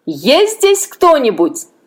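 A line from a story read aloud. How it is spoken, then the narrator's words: Loud shout. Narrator (Russian): Другой громко крикнул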